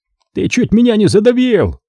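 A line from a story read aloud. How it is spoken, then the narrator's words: Shouted. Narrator (Russian): прокричал он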